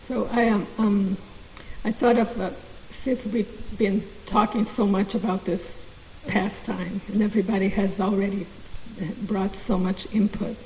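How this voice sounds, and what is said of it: Impaired, weakened voice. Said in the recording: “I have my vocal cords paralyzed. That's why my voice is gotta work on it.”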